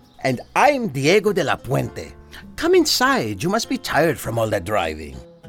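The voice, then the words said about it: Foreign-accented English. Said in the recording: “I recognize your accent.”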